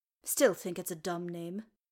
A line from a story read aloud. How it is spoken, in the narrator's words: Gloin muttered